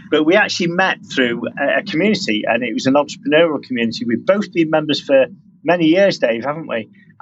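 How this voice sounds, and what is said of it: British accent. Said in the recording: “as you probably can tell from the accent, I'm from the UK”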